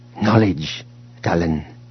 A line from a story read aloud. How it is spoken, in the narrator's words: Cardus said quietly